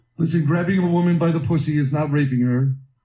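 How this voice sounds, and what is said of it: Poor imitation of another person's voice. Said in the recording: “worst Trump impression. ... That's not Trump.”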